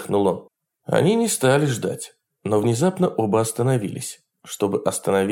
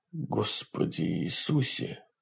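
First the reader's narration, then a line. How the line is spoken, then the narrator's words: Muttering. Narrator (Russian): пробормотал Марти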